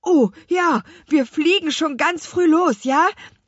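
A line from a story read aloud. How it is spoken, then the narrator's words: Call. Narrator (German): rief Louis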